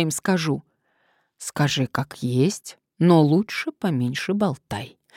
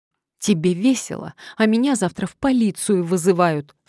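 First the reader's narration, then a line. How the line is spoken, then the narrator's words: Sobbing. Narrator (Russian): всхлипнула Маша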